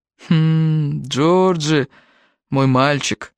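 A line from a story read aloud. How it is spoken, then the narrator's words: Pointedly patient, as to child. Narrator (Russian): сказал капитан, подчеркнуто терпеливым голосом, каким обычно разговаривают с ребенком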